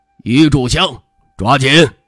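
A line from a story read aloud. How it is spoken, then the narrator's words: Sharp, stern. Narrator (Chinese): 聂峨眉本能的厉声道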